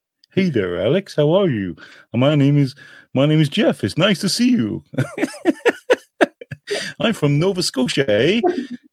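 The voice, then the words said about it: Deep voice, Newfoundland accent impression. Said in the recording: “he had a very deep ... he's from Newfoundland ... Newfoundland and the East Coast sounds a lot like a mix between Irish and Scottish, mostly Irish”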